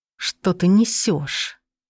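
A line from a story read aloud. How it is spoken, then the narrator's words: Hiss. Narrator (Russian): прошипел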